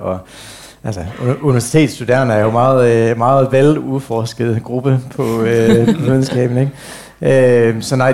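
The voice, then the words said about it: Slight New Zealand accent in Danish. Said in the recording (Danish): “nu har jeg jo lært dansk som voksen, så det er derfor man har lidt accent ... du kommer fra New Zealand”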